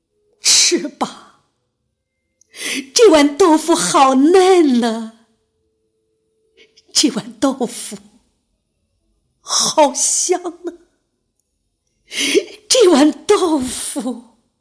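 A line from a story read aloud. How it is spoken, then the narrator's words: Choked, sobbing voice. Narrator (Chinese): 哽咽地说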